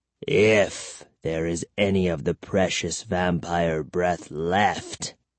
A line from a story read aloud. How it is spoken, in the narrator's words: he said bitterly